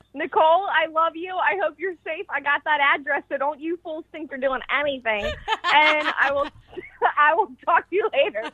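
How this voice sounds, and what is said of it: Northeast Philadelphia accent. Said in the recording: “She sounds like she has a Northeast Philly accent.”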